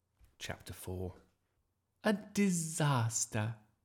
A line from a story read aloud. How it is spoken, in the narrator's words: sighed Miss Darling